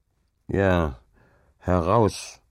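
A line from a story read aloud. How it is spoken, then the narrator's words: Grumbling. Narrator (German): brummte Hauke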